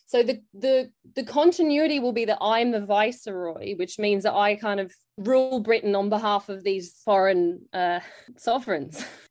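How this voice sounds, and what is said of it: Australian accent. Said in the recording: “You might be able to tell from my accent, I'm actually, like, grew up in Australia.”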